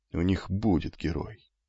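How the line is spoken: Muttering. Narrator (Russian): бормотал амфитрион

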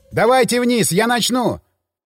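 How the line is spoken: Panicked shout. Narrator (Russian): крикнул я, чувствуя, как накатывает паника

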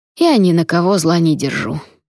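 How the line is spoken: Grumbling. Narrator (Russian): проворчал он

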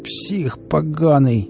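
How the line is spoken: Groaning. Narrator (Russian): простонал Валера

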